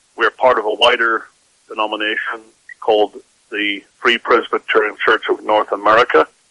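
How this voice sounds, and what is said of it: Northern Irish accent. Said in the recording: “As you can probably tell by my accent, I'm not a native of this country ... I grew up in Northern Ireland”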